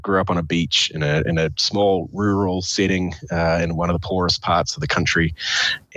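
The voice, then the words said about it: New Zealand accent. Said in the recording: “as you can tell from my accent, I'm not a third generation Wyomingite... I was born and raised in New Zealand”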